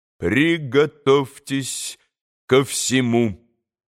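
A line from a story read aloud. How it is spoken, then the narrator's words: Clipped, stressing each syllable. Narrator (Russian): отчеканил, ударяя по каждому слогу доктор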